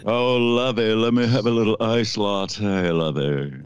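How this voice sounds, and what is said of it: Imitates another person's voice. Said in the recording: “I'll do my best Jim Backus impression.”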